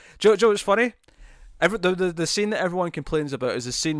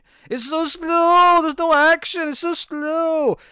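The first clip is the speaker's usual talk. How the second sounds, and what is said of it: Mocking impression of complaining moviegoers. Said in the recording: “I'll do an impression of people who don't like this movie.”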